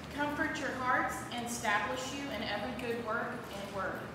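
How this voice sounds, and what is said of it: Loud, projecting teacher voice. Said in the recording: “Stand up and read it with your loud mama voice ... Read it with your teacher voice.”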